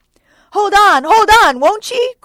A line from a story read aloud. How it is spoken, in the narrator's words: cried Starbuck to the body